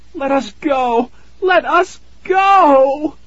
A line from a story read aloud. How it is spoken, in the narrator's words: Tara wailed